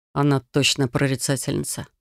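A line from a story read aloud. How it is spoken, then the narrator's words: Mumble. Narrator (Russian): пробормотал Яр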